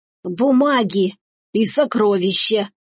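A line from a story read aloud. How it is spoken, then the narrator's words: Hoarse, crazed peasant. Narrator (Russian): прохрипел дурной мужик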